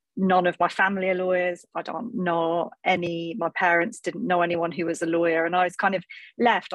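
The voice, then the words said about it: Northeast English accent. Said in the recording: “as you can probably tell from my accent, I come from the northeast of England”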